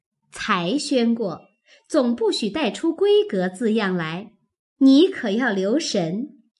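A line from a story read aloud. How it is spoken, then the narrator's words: Laughing. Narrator (Chinese): 笑道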